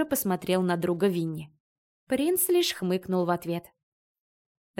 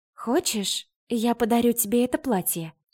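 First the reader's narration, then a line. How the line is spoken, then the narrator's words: Seductive whisper. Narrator (Russian): Голосом змеи-искусительницы нашептывала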